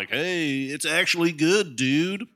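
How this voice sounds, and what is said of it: Dumb-sounding movie reviewer voice. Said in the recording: “my impression of a movie reviewer. ... You sound dumb.”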